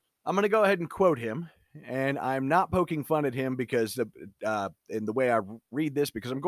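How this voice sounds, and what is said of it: Usual voice. Nothing is said of it.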